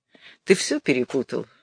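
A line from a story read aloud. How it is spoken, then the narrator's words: Sighed. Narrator (Russian): Розовский вздохнул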